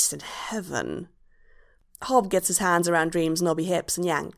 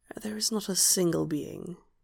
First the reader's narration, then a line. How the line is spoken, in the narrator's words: he whispers